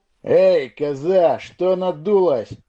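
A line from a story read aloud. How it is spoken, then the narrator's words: Smug snort. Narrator (Russian): довольный, видимо, успехом, рыжеусый хмыкнул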